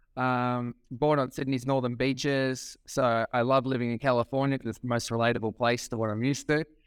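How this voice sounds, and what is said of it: Australian accent. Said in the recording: “Obviously born and raised in not the United States. By my accent, you can probably notice that. I am from Australia.”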